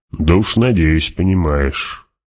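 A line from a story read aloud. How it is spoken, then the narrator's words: Grumbling mutter to himself. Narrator (Russian): проворчал про себя барон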